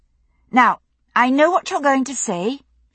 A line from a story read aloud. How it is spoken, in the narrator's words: she said firmly